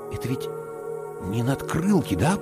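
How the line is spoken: Whisper. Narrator (Russian): прошептал я

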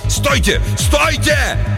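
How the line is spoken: Yell. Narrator (Russian): Наконец Хендриксу удалось выйти из оцепенения, и он заорал

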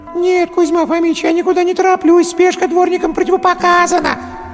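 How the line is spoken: Desperate wail. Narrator (Russian): И взвыл в отчаянии

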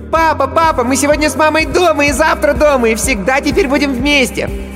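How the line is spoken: Shouting. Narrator (Russian): Никита уже кричал

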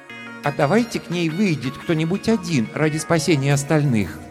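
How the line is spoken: Timid. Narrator (Russian): робко предложил Арактур

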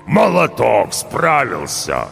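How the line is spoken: Good-natured rumbling. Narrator (Russian): Добродушно прогудел он

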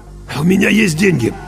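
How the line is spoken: Hoarse after throat-clearing. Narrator (Russian): Кузнецов откашлялся и хрипло сказал

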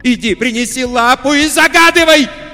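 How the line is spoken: Shouting. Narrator (Russian): закричала она

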